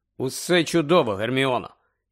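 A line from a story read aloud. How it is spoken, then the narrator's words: Insincere, strange voice. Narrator (Ukrainian): якось нещиро, чужим голосом озвався Гаррі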